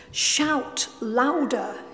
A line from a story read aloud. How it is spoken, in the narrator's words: he said